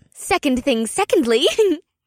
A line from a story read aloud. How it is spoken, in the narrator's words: Una giggled